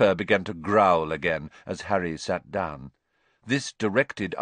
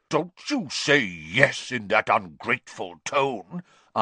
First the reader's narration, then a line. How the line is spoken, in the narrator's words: Aunt Marge growled